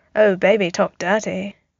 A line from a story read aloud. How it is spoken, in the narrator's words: Tony murmured into his coffee